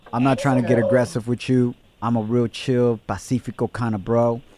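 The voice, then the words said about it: Put-on sexy voice. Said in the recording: “Get your sexy voice on.”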